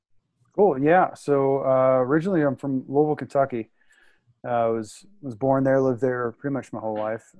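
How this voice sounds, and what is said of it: Noticeable Kentucky accent. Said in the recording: “You can hear the accent, yeah... a little bit”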